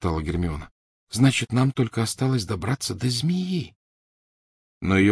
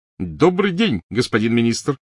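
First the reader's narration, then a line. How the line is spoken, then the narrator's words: Shouting. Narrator (Russian): крикнул Перси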